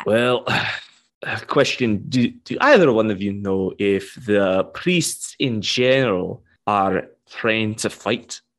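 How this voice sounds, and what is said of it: Noticeable accent, words hard to catch. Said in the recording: “Your accent, it throws me off sometimes.”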